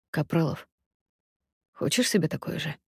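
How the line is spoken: Insinuating whisper in ear. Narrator (Russian): Руслан вкрадчиво шепчет мне в ухо

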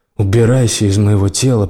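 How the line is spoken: Growl. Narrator (Russian): прорычал он

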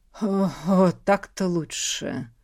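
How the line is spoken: Satisfied calmed sigh. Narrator (Russian): Удовлетворенно вздохнул он, успокоившись

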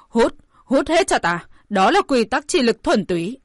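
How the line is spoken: Loud shout. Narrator (Vietnamese): Hỏa Vân Hầu hét lớn

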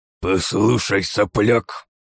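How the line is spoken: Mustached man's hiss. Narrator (Russian): прошипел усатый

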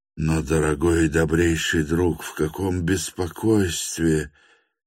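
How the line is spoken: Faltering exclamation. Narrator (Russian): замирающим голосом воскликнул Степан Трофимович

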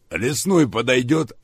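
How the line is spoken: Laughing. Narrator (Russian): рассмеялся полковник

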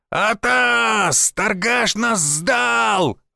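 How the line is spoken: Shouted alarm by lookout. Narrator (Russian): выкрикнул один из дозорных

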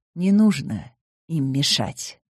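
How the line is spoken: Soft. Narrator (Russian): мягко сказал Скотти

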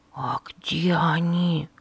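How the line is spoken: Whispered question. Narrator (Russian): шепотом спросил Дуэйн

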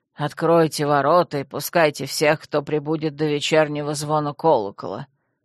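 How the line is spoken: Grim command. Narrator (Russian): мрачно распорядился дворецкий

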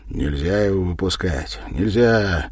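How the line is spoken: Feverish whisper. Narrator (Russian): порою горячечно шептал Юрий

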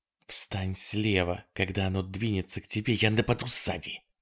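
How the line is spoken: Whisper. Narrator (Russian): прошептала она

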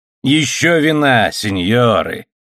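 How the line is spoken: Loud exclamation. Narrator (Russian): воскликнул он громким голосом

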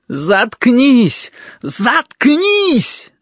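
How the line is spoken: Screaming. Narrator (Russian): завопил Омара

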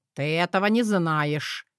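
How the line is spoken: Words spat out angrily. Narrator (Russian): я злобно выплюнул слова

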